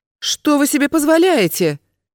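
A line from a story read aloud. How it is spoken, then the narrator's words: Indignant yell. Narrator (Russian): возмущенно завопила Надежда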